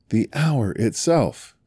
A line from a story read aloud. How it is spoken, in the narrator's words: said Scrooge triumphantly